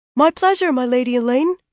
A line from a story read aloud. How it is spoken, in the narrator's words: he piped, blushing